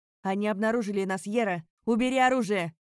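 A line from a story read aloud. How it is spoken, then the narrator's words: Barked. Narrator (Russian): рявкнул он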